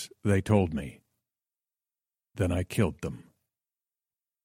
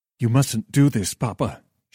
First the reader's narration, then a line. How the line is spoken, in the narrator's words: cried